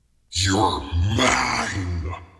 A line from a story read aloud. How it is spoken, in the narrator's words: he snarled